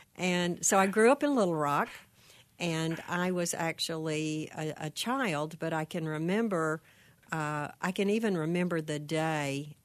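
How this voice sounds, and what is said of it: Slight twang accent. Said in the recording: “You still have a little twang there”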